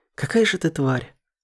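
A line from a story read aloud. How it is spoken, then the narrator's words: Breathed out. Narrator (Russian): выдохнула она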